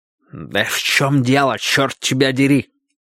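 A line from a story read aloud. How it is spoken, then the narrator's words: Hissed. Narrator (Russian): прошипел вице-президент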